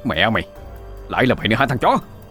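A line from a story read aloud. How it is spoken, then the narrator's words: Angry bald man shouting. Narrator (Vietnamese): Đầu trọc giận dữ quát lên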